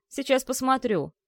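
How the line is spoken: Angry snap. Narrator (Russian): зло огрызнулся он

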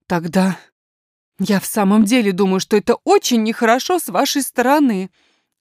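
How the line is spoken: Tearful exclamation. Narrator (Russian): воскликнула няня

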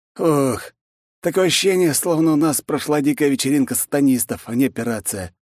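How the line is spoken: Displeased exhale. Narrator (Russian): недовольно выдохнул он

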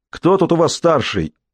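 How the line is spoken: Shouted from afar. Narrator (Russian): еще издали прокричал

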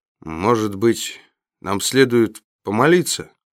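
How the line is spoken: Uncertain man asking. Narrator (Russian): неуверенно спросил мужчина

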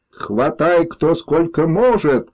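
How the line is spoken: Joyful student yelling. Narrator (Russian): радостно заорал студент

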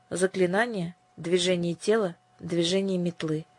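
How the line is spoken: Quiet voice. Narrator (Russian): тихим голосом произнесла Ясмин

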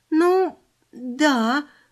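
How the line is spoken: Uncertain, forced reply. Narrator (Russian): выдавила я, не зная, хорошо это или плохо

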